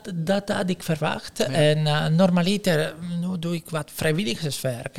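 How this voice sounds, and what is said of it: Italian accent in Dutch. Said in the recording (Dutch): “je kunt horen waar je vandaan komt. ... ik heb een accent. Dat zal niet zo snel weggaan. ... Waarom praat hij zo raar? Ja, ik kom uit Italië.”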